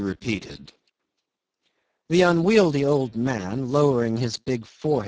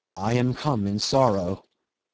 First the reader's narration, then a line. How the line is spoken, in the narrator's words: Jim said, gently